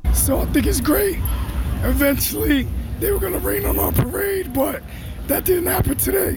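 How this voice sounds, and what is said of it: Hoarse, nearly lost voice. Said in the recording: “lost your voice in the process... I lost my voice”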